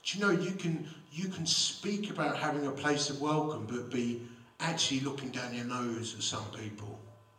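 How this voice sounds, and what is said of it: Romford Essex English accent. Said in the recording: “I've been both blessed and cursed with a Romford heritage... don't let his accent fool you”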